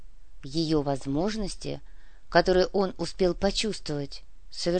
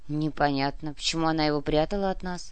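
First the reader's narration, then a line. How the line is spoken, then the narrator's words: Grumble. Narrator (Russian): проворчал Александр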